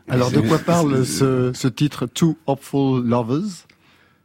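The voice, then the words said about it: French-accented English title. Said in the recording (French): “vu mon accent”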